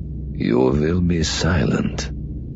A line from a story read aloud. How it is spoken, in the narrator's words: Kazadi said, his voice soft and yet utterly vicious